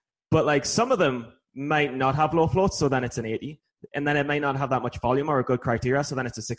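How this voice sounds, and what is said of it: Usual voice. Nothing is said of it.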